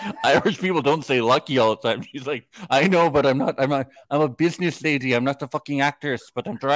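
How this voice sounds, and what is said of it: Usual voice. Nothing is said of it.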